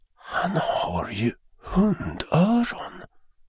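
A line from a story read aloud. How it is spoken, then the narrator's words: Mother whispering in icy horror. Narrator (Swedish): viskade mamman med iskall fasa i rösten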